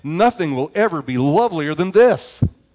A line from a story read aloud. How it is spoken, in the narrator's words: the young mother cried